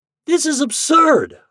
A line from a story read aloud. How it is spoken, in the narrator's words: I shouted